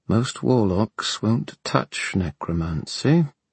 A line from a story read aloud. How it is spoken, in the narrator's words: he said quietly